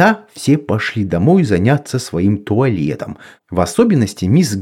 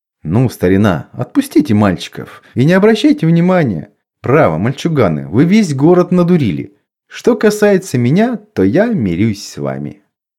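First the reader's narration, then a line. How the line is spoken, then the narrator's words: Young lawyer laughing. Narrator (Russian): молодой мистер Сприкс, адвокат, засмеялся и сказал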